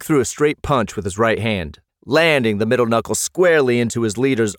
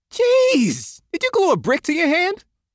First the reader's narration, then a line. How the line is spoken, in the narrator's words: Jeff laughed